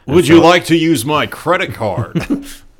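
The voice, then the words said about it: Strained, stiff-lipped American accent impression. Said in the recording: “His bad, like, American accent ... It sounds like he's constipated a little bit. ... It always sounds like his lip is, like, being stuck out like this. You know, like his upper lip is just being held out.”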